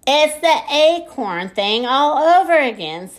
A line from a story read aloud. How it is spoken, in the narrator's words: shouted